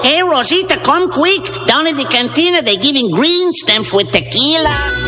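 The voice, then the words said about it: Cartoon character voice. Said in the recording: “You had Mel Blanc doing that voice. You know, he was doing all those cartoon voices.”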